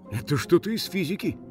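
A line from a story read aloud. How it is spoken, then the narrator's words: Mutter. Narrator (Russian): пробормотал один полицейский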